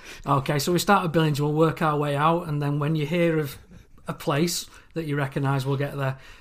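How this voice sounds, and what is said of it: English regional accent. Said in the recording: “across the pond to England ... you make our Chicagoland accent seem very boring”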